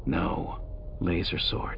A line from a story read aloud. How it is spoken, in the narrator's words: Rug said, lowering her voice even further as the guards approached